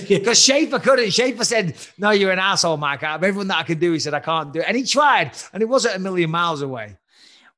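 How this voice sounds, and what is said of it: English accent with American twang. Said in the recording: “I have a bit of a wanker accent these days ... There's obviously a twang of American in there.”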